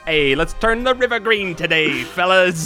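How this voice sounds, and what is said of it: Put-on Chicago accent. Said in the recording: “What's a Chicago accent sound like? ... Hey, it's not quite New York.”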